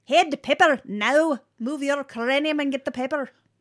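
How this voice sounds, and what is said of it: Weak put-on Scottish accent. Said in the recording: “The only point of reference I have for a Scottish accent is, so I married an axe murderer ... I'm not good at it.”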